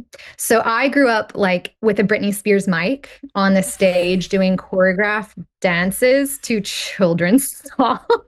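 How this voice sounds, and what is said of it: Texan American accent. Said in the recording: “I am Texan, as you might have deduced from my accent.”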